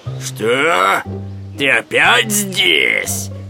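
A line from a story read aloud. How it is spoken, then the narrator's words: Growling bear. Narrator (Russian): зарычал медведь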